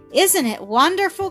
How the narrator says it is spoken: cried Millie

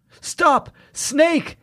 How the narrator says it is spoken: Jamie cried out

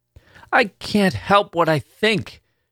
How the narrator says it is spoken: she cried out suddenly

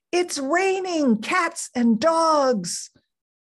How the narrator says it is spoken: Mom yelled out

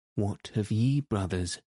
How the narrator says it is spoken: said he

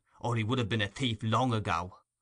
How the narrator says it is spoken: muttered the man

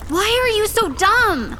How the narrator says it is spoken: Augustus shrieked

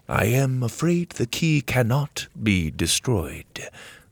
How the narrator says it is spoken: the servant said solemnly

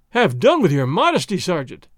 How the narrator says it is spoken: Don Diego cried

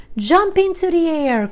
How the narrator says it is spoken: cried Charlotte

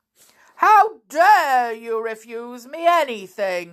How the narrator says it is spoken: he cried

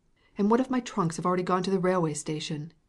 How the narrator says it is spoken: exclaimed in despair

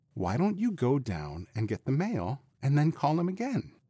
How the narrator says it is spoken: Allison said soothingly

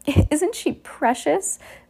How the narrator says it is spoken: Esme cooed

